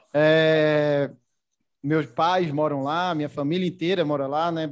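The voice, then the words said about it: Recife (Pernambuco) Brazilian accent. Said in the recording (Portuguese): “já começando pelo sotaque, né? Eu, eu sou de Recife, natural de Recife”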